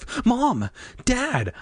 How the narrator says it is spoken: I cried

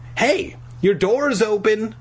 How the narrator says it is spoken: I shouted

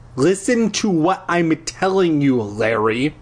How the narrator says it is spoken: she said through gritted teeth

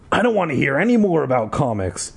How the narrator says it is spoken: Dad said gruffly

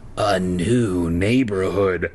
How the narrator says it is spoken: croaked

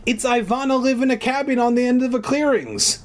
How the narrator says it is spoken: Marissa exclaimed happily

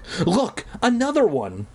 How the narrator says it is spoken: Marty cried

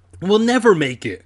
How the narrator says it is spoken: I choked out

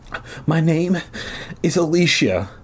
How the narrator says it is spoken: the girl replied, sobbing

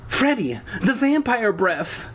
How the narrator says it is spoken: Kara cried

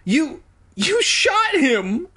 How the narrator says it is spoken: I shrieked

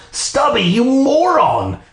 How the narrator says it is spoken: I shrieked

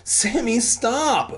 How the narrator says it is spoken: Brent begged

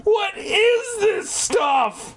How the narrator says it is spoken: I cried

